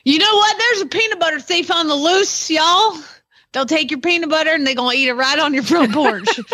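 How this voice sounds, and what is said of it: Put-on Oklahoma accent. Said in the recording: “I'm missing out doing this in an Oklahoma accent. I'm sorry, Mary Lou. I didn't quite say it the way it needed to be said.”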